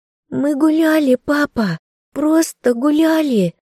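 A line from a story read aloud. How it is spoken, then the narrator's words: Sobbing. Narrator (Russian): рыдала Майя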